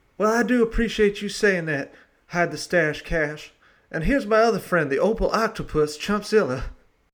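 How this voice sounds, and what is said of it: Put-on accent in character. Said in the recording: “that accent”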